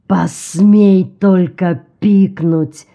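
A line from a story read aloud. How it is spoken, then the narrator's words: Hissed up close. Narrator (Russian): прошипел Ильмач прямо в лицо Орво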